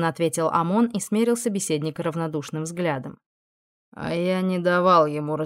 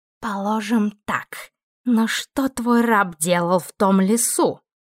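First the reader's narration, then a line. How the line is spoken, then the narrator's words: Hissing. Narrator (Russian): прошипел ангел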